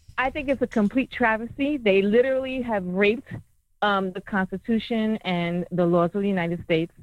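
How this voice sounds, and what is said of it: New York accent. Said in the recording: “Sounds like it. ... Yeah, I can hear that accent. I love that accent.”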